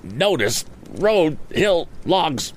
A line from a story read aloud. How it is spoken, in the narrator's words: stammered Andy, turning red under his freckles